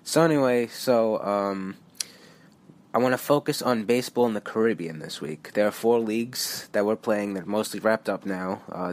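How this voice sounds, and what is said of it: Nasal, stuffed-up voice. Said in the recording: “I'm getting over a cold, so my voice is a little nasally and stuffed here”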